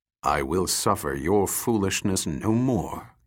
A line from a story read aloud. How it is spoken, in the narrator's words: Kang replied coldly